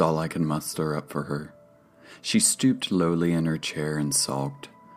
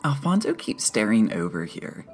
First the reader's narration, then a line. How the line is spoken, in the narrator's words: said happily